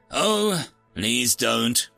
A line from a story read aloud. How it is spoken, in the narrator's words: groaned the Halbat